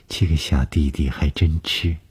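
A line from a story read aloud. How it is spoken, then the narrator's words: Flat, indifferent. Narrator (Chinese): 董峰只是淡淡地说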